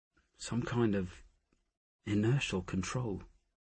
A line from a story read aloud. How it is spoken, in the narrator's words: he murmured